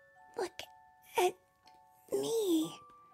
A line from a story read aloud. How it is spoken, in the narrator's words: Frances whispered